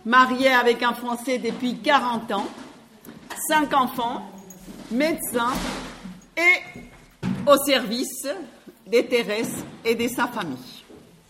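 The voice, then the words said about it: Colombian accent speaking French. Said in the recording (French): “Je suis colombienne, mon accent s'entend”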